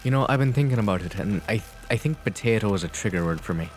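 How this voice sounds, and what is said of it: Put-on Irish accent. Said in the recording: “He's done the Irish accent again ... with the Irish accent that he does, he literally, for it's almost good”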